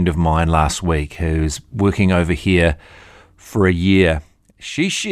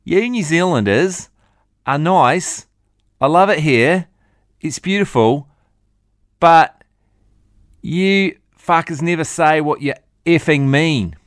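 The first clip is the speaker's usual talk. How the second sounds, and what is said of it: Poor put-on Australian accent. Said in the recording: “Terrible Australian accent.”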